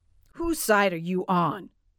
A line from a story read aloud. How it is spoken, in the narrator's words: grumbled